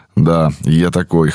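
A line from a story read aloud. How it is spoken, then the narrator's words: Snorted. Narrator (Russian): хмыкнул я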